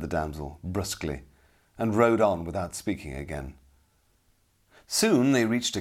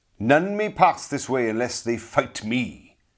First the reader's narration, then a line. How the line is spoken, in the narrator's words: he cried harshly